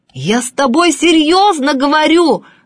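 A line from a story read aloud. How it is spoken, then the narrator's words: Shouting professor. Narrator (Russian): закричал профессор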